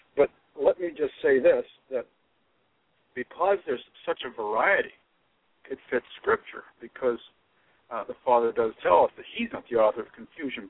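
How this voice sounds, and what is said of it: Hoarse, strained voice. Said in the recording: “I'm a little hoarse. I've been preaching since way earlier this morning”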